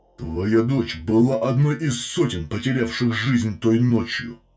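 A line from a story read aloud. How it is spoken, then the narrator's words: Growl. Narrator (Russian): прорычал повелитель ночи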